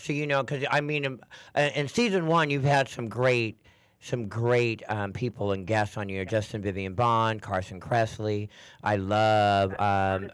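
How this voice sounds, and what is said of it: Raspy voice. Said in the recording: “I love the raspiness in your voice.”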